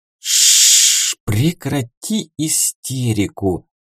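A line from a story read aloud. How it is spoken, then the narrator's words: Hissing shaman. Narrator (Russian): зашипел на нее шаман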